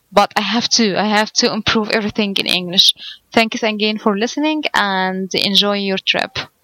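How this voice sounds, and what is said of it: Egyptian Arabic-accented English. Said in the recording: “your accent is not terrible. It's great. It's fine. I can tell that you're from Egypt, or that Arabic is your first language. I can tell, but it still sounds great. It sounds nice. You've got a nice sounding voice. Your accent sounds good.”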